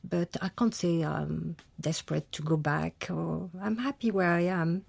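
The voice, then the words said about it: Exquisite French accent. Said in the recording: “you've kept your exquisite accent”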